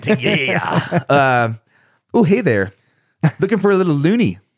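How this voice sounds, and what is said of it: Put-on Canadian accent. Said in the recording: “your best Canadian accent? ... This is my Canadian accent.”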